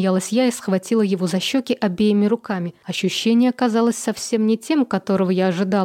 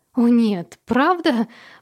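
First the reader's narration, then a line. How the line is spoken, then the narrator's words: Exclaiming. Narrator (Russian): воскликнула я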